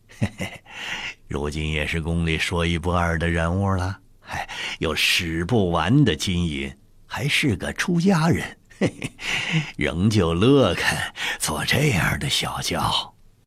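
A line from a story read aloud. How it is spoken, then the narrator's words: Laughing. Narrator (Chinese): 李卫笑道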